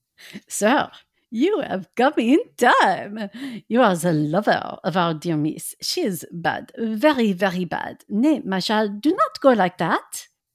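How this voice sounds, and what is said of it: Exaggerated French-sounding accent, Pepe Le Pew. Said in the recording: “You're really drifting into like Pepe Le Pew territory here. ... I'm making him a French Dutchman.”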